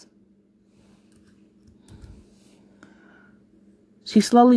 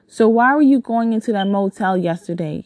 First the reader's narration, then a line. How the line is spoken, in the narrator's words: he asked